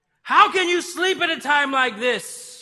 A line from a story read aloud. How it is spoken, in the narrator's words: He shouted